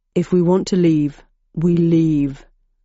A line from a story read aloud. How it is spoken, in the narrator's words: growled Landon